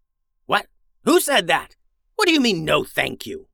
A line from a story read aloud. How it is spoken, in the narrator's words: growled the wizard